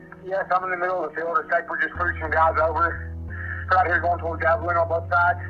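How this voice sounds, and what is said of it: Thick Southern accent, frantic. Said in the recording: “Brandon's thick southern accent. ... Brandon was frantic and terrified.”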